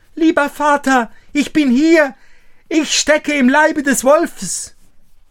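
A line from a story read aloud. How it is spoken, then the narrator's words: Calling out. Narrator (German): Daumestick … rief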